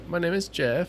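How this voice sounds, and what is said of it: Imitates another person's voice. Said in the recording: “What's your best impression? ... When Channing Tatum...”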